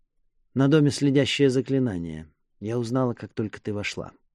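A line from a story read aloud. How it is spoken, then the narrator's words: Sighing. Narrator (Russian): Вздохнув, Мира сказала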